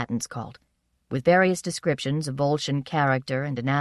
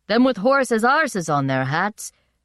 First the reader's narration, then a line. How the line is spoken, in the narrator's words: one man shouted